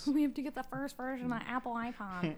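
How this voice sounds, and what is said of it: Impression of a dim-witted person. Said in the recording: “That was a good impression of Mike. ... It was just a good impression in general. ... Of a stupid person.”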